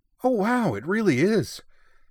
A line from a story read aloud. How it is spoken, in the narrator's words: Yui exclaimed